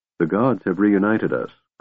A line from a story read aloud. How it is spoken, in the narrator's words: Goldmoon said gently